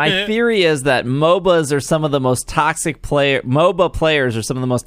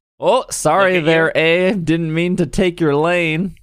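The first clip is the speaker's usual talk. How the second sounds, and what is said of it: Put-on Canadian accent. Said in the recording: “That was my best Canadian impression.”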